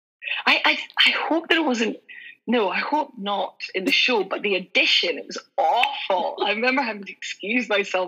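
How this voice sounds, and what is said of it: Scottish accent. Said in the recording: “that's where my Scottish came out ... your accent wasn't as pronounced as it is like you and I talking now ... a Glaswegian one”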